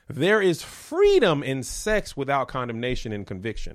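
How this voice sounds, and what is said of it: Preacher voice. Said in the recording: “I can't turn my preacher voice off right now because I already started.”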